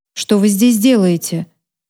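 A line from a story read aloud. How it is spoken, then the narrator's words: Dry question. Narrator (Russian): спросил он сухим тоном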